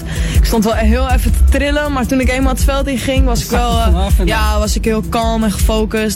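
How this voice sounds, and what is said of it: Slight Amsterdam Dutch accent. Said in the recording (Dutch): “Ik ben een geboren Amsterdammer, dat hoor je ook wel een beetje aan mijn accent.”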